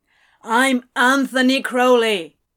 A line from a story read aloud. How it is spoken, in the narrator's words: he said as loudly as he could